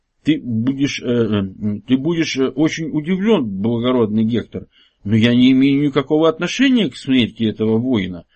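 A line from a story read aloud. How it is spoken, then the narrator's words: Badly stuttering calm mumble. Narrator (Russian): жутко заикаясь, но совершенно невозмутимо промямлил Лаэртид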